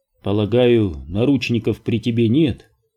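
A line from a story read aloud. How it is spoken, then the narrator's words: Plain. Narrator (Russian): спросил Барри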